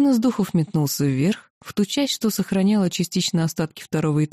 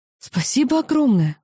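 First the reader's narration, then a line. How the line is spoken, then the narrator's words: Surprised grateful exclamation. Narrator (Russian): воскликнула я, после всех разрушений и не ожидавшая увидеть собственные вещи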